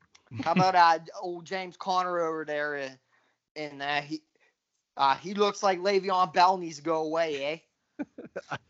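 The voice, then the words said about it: Put-on Pittsburgh accent. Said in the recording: “God, I love the Pittsburgh accent. So good.”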